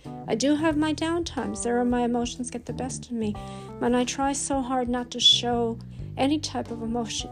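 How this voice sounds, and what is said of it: Voice cracking with emotion. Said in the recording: “hear the crack in my voice.”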